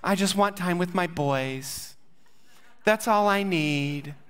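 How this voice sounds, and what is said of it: Imitates his mother's voice. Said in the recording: “That's a pretty good impersonation, if I say so myself, of my mom.”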